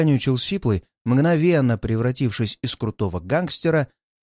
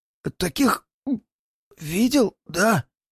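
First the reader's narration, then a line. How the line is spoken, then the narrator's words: Even hoarser, dry throat. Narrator (Russian): Начал он еще более сипло, видимо, в горле пересохло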